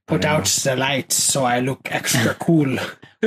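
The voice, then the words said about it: Deliberately bad villain accent. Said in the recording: “I'm putting on a horrible, like, Hydra accent, because I don't know what Dr. No's accent is”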